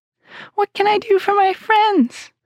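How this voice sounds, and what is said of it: Squeaky little mouse queen voice. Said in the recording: “in her squeaky little voice”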